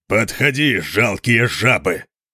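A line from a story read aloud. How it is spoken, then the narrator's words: Thunderous roar. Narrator (Russian): прорычал он не менее громко, чем горный обвал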